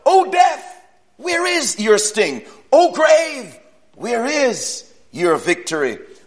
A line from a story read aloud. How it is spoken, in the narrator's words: he cried out